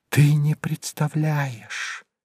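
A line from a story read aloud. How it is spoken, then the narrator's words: Loud whisper. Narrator (Russian): громким шепотом проговорила она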